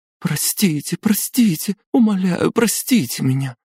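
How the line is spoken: Inconsolable sobbing. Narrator (Russian): Безутешно зарыдала Одетта

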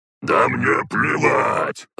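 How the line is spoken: Gruff growl. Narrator (Russian): рыкнул глава селекционеров

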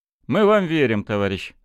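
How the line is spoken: Plain. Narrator (Russian): сказал Белецкий

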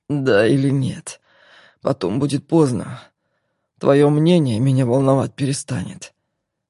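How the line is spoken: Hoarse question. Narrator (Russian): хрипло поинтересовался Игорь

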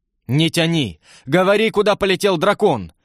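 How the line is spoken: Impatient shout. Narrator (Russian): в нетерпении прокричал старший слуга

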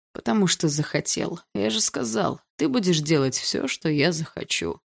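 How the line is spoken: Lazy reply. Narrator (Russian): лениво ответил он

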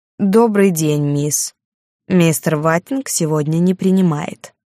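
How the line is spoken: Pointedly polite, cold. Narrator (Russian): подчеркнуто вежливо, но холодно произнес

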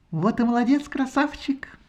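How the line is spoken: Pleasant voice, no accent. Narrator (Russian): приятным голоском, безо всякого акцента, сказала Афродита

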